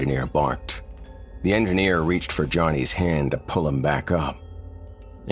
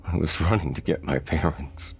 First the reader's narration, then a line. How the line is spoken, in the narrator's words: Thomas choked out between sobs